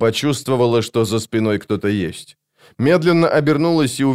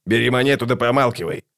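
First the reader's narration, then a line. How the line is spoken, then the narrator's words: Snapping retort. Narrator (Russian): огрызнулся скрипач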